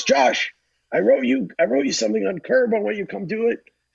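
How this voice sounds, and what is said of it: Imitates another person's voice. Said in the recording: “my horrible Larry David impression ... It's not bad”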